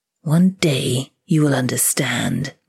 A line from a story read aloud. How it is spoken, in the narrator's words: Mama hissed